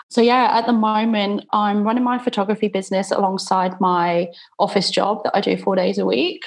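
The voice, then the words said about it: British English accent. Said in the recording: “I'm originally from the UK. You can probably tell by my accent.”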